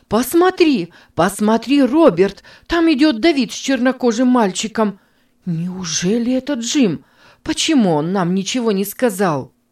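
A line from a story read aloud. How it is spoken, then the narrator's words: Shout. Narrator (Russian): она крикнула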